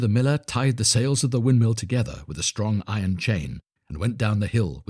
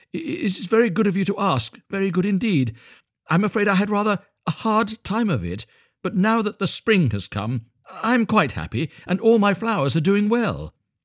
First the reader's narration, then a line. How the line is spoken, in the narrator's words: cried Hans